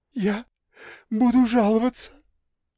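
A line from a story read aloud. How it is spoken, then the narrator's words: Sobbing. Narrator (Russian): всхлипнула Мила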